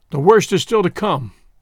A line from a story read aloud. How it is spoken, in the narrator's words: he said